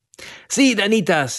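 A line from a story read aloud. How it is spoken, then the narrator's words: Exclamation. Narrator (Spanish): exclamó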